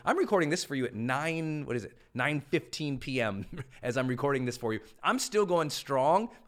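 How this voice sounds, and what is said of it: Slightly strained, tired voice. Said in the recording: “My voice might be a little wacky because I've been going all day”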